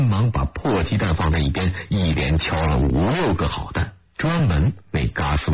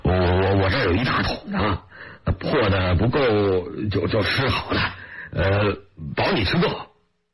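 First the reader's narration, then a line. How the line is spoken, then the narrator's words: Laughing. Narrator (Chinese): 他笑着说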